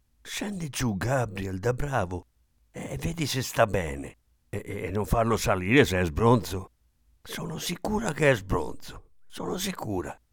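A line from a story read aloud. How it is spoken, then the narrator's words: Whispered in ear. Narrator (Italian): La zia Kate gli bisbigliò all'orecchio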